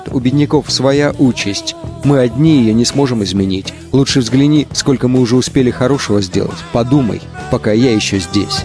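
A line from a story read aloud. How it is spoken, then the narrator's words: Calm remark. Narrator (Russian): Иисус спокойно замечает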